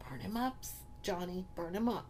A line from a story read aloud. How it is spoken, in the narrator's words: Susie looked up at him with confidence and whispered